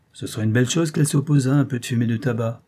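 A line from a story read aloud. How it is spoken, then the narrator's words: Growling. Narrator (French): gronda M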